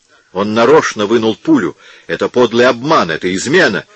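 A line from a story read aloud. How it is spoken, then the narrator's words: Shout. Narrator (Russian): крикнул Посада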